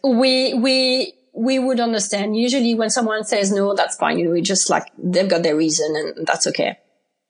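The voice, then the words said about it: French accent. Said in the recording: “I'm from France, obviously. You can recognize that from my accent.”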